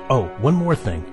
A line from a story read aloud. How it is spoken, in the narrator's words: Abdiel said